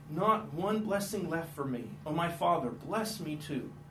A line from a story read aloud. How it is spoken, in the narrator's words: Esau pleaded